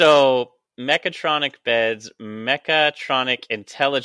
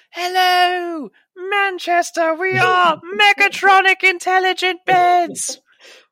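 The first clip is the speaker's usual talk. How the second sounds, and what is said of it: Put-on British accent. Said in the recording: “Why are they always British?”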